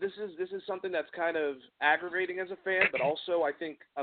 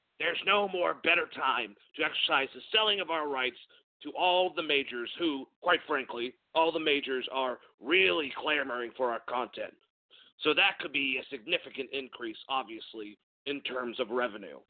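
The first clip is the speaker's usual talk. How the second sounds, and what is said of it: Poor Vince McMahon impression. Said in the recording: “when I actually have a cold, I do a worse Vince McMahon impression. That was terrible.”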